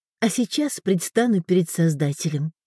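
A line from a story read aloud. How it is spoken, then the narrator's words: Whisper. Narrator (Russian): шепнула она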